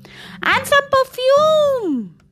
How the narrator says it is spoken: bellowed Bettina

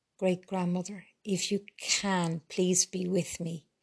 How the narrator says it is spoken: prayed Paula quietly

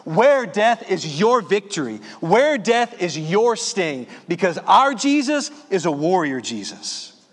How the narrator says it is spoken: shout in his face

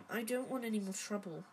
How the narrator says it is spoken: he mumbled

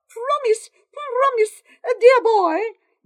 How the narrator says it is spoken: Matt cried

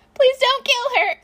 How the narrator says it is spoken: Izuku wails

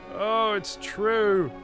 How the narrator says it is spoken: he wailed

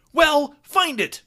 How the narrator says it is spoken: Justin barked

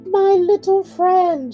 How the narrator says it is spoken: she exclaimed

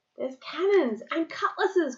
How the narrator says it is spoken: cried Duck dots

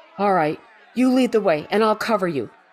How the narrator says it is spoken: Quinn shouted back

